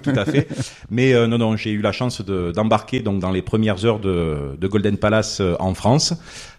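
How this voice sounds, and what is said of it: Slight Marseille French accent. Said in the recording (French): “originaire de Marseille. Bon, je pense que mon accent le trahit. ... Oui, c'est plus marseillais un peu.”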